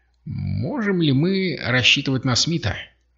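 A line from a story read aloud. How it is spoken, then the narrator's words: Mutter. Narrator (Russian): пробормотал Зинга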